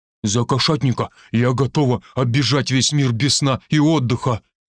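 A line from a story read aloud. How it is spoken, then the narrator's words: Confident declaration. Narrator (Russian): уверенно заявила лосиха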